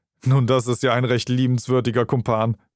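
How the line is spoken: Said laughing. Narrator (German): meinte Holmes lachend

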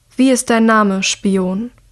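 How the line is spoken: Calm question. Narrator (German): fragt Nico ruhig

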